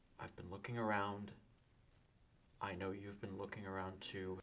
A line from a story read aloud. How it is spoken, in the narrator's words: say very quietly